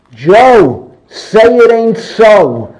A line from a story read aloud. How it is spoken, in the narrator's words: I was a little kid, and I yelled